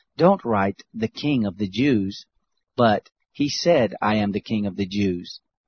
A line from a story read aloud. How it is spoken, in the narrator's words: Pilate answered